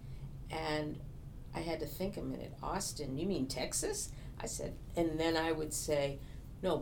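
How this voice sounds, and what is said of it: Boston accent. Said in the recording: “my accent ... I'm from Boston”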